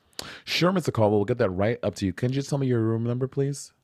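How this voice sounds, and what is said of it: Polite customer service voice. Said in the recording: “customer service voice ... Yale Club voice”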